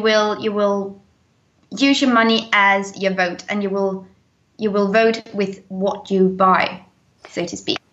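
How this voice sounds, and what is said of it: British accent. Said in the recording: “I love to listen to your British accent”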